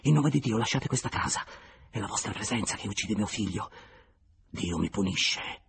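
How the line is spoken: Under breath. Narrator (Italian): aggiunse sottovoce

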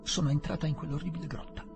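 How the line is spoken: Curtly. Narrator (Italian): diceva seccamente

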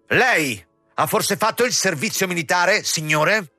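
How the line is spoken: Shouting. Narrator (Italian): gridando

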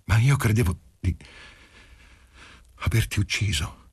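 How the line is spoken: Panting, upset and breathless. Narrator (Italian): Disse, ansimante per il turbamento e per la corsa

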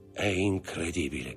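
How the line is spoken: Murmured. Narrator (Italian): mormorò il banchiere

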